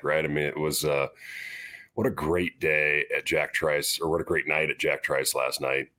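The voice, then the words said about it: Slightly hoarse, strained voice. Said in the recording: “My voice is a little out”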